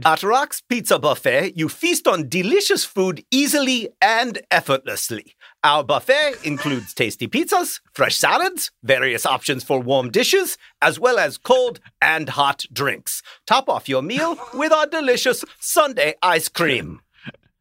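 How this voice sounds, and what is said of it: Put-on German accent. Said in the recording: “I don't have a Finnish accent. I've never met a Finnish person, but this is a German accent.”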